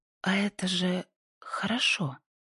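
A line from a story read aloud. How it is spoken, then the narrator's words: Sudden quiet words. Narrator (Russian): Пасифика вдруг тихо вымолвила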